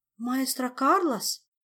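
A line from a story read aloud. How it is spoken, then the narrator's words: Confused muttering. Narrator (Russian): растерянно пробормотала Ольга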